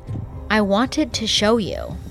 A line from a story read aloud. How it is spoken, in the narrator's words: She calmly said